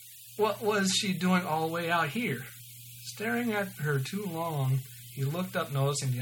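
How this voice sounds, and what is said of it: Usual voice. Nothing is said of it.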